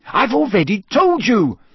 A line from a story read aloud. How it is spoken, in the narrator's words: Hermione said very angrily